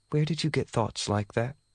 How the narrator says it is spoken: Ye asked softly

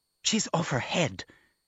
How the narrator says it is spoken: hissed Alexandra just as loudly

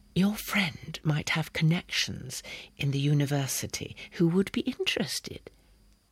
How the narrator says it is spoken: she breathed scarcely audibly to me

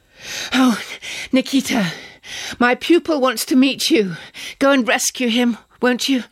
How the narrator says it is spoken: I gasped

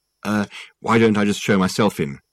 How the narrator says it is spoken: said Richard

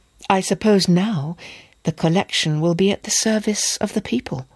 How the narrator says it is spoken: said at last, timidly

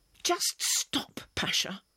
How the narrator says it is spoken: I spat back at him, furious

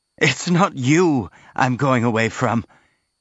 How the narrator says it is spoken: gasping for breath and coughing slightly

